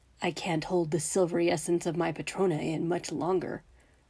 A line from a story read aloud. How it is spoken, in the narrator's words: Remus murmured